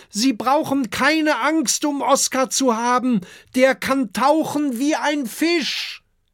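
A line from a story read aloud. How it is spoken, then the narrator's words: Calling across to beach. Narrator (German): Da ruft Kokosnuss zum Strand hinüber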